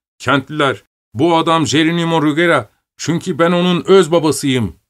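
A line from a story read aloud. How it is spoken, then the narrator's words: Cried out. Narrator (Turkish): diye haykırıp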